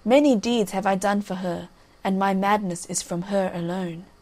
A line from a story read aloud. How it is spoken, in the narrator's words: answered gravely